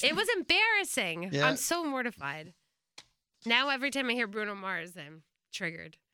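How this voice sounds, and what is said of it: New Jersey accent. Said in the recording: “Your Jersey accent just came out.”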